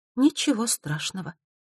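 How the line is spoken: Usual carefree tone. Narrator (Russian): ответил своим обычным беспечным тоном

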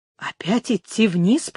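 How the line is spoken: Muttered. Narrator (Russian): пробормотал он

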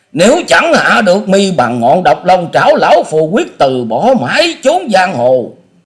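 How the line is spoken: Shrill screaming. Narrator (Vietnamese): Ông thét lên trong giọng rít

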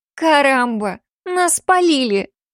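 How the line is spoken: Loud hall-filling exclamation. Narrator (Russian): Тут же воскликнула на весь зал Йосика

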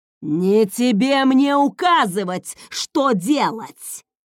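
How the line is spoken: Father's angry growl. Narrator (Russian): зарычал отец Люсьена

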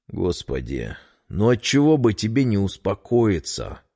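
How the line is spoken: Sigh. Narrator (Russian): вздохнул Петр

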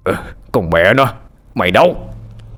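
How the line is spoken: Shouting. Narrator (Vietnamese): Hưng quát lên

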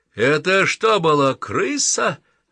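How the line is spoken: Harsh bark. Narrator (Russian): рявкнул Джордж Баханан

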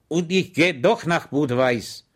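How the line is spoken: Calm, dignified. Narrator (German): der ruhig und würdig sagte

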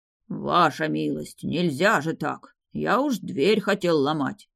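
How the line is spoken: Deep bass voice. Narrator (Russian): Пробасил он

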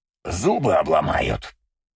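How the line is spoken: Predatory growl. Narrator (Russian): хищно прорычал Борн

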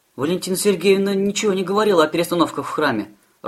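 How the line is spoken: Timid objection. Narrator (Russian): робко возразила Фатиния

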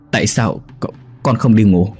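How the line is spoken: Panicked stammering question. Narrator (Vietnamese): Thầy U của ông hoảng loạn, lắp bắp hỏi ông

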